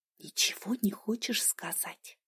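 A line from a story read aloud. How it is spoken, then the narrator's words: Whispered question. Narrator (Russian): шепотом уточнила сестра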